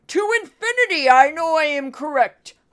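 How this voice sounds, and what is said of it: Imitates another person's voice. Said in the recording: “That's my imitation of Stephen Miller.”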